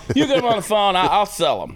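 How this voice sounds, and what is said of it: Imitates another person's voice. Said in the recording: “That's a very good impersonation right there.”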